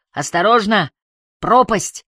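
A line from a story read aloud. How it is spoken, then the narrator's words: Shouting. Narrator (Russian): Харри уже пару раз кричал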